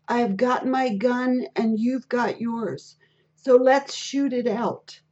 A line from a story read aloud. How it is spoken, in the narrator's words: he heard one man shout at a white policeman